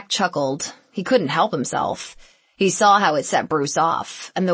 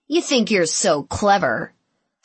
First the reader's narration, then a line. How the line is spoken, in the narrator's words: said Bruce